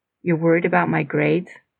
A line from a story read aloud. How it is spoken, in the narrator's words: said softly, her voice barely under control